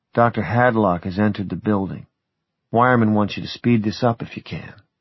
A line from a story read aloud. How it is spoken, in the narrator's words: Jack leaned close to murmur in my ear